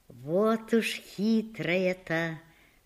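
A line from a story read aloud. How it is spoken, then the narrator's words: Smiling mutter. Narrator (Russian): бормочет она и улыбается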